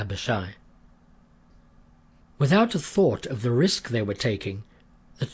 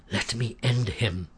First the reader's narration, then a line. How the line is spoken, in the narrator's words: Abishai whispered